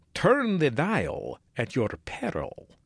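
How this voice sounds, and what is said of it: Dracula voice. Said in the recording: “do that in a Dracula voice”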